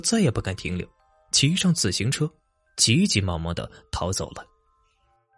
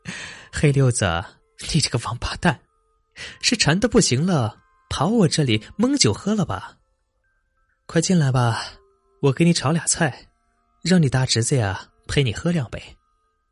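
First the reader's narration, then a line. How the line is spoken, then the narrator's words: After hearty laughter. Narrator (Chinese): 翠萍哈哈大笑，笑完了说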